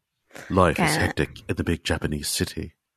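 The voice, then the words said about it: Put-on pop-singer style accent. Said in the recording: “I think that was a Pet Shop Boys accent, but I'm unclear.”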